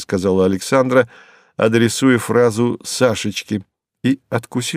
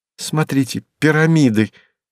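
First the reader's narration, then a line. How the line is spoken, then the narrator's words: Exclaimed. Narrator (Russian): воскликнула Марина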